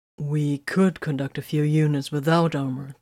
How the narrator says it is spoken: Titus suggested evenly

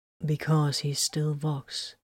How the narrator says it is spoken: Titus said, his voice flat with grief

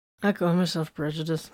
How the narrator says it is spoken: Vox mumbled

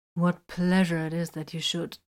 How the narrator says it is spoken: he purred

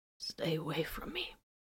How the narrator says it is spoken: breathed

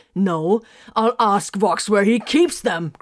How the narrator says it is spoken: Grimfang roared

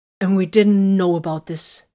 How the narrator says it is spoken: she snapped

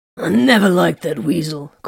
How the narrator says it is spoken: Corvin growled

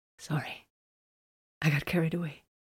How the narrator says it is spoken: An apologetic smile bloomed on her lips just before she slung her arms tightly around his neck and whispered

